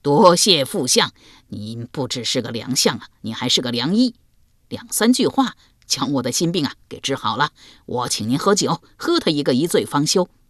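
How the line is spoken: Hearty laughter. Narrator (Chinese): 欧阳修转忧为喜，哈哈大笑道

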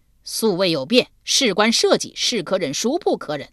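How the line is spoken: Thunderous roar. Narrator (Chinese): 他再吼，即使吼得地动山摇

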